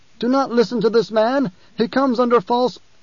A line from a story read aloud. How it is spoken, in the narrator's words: the official called out